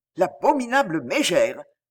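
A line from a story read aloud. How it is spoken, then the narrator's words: Indignant growl. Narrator (French): gronda Valver indigné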